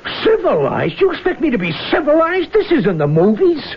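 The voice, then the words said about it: Angry shouting. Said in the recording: “There you go, shouting. Always shouting.”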